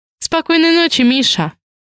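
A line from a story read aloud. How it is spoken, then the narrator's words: Abrupt interruption. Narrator (Russian): Резко перебиваю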